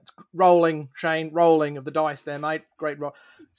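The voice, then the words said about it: Unconvincing put-on Australian commentator accent. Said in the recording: “playing in Australia ... Actual accent, not really passable”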